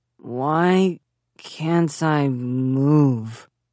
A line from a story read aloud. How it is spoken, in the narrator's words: Zack slurred